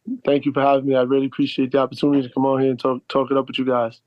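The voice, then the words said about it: Northeast US East Coast accent. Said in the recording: “I love the sort of Northeast, East Coast accent that I'm hearing”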